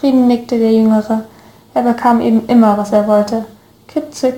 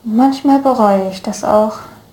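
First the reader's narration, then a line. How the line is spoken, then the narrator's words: Theatrical sigh. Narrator (German): seufzte Law theatralisch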